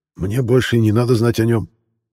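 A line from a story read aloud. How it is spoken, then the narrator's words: Angry wheezing snarl. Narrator (Russian): злобно прохрапел наконец Аир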